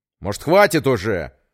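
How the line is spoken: Snapping, losing restraint. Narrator (Russian): Прекратив сдерживаться, огрызнулся Петр

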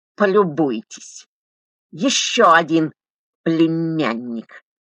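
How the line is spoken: Hissing woman. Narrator (Russian): прошипела регистраторша

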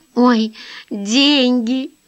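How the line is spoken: Moaning. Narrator (Russian): простонала Эллен

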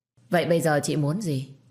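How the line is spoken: Cold faint laugh. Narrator (Vietnamese): cười nhạt

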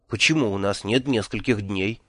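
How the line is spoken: Quiet, shrill, hysterical question. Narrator (Russian): тихо спросил, с отвращением отмечая, что в моем голосе появились пронзительные истерические нотки

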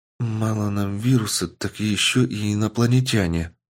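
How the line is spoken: Shocked girl muttering. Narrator (Russian): пробормотала шокированная девушка

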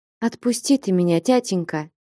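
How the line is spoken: Quiet. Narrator (Russian): тихо заговорила Настя

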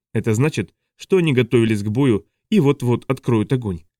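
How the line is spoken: Calm, unsurprised statement. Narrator (Russian): сказала Вальёва так спокойно, будто ничего другого и не ожидала

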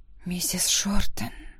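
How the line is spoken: Soft whisper. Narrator (Russian): тихо прошептала я

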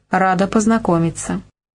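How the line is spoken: Even, composed voice. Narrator (Russian): Ада Николаевна ровным голосом проговорила

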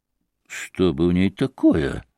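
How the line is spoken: Muttering. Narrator (Russian): пробормотал Ракитин

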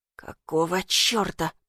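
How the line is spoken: Muttering. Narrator (Russian): пробормотал он

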